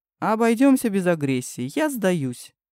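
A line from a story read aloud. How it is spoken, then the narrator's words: Laughing. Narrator (Russian): засмеялся Макс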